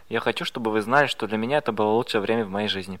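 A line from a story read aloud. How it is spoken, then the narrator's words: Halting mumble. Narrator (Russian): Я не смог найти слов, попросту пробормотав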